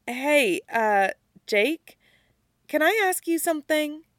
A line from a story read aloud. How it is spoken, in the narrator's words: nervously, then says